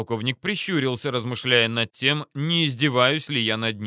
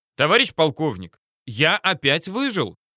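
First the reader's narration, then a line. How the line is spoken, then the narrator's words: Brisk cheerful report. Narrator (Russian): Бодро отрапортовал я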